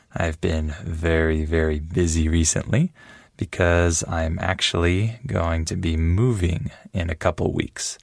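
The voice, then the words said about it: Early-morning voice. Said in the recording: “As you can hear from my voice, I'm recording this very early in the morning.”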